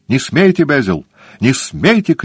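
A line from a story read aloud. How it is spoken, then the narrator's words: Shout. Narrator (Russian): крикнул он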